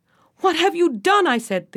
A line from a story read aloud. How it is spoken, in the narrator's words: the king shouted